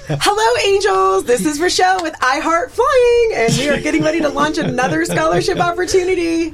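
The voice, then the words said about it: High-energy imitation of another person. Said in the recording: “Do your best Rochelle impersonation ... She's very high energy”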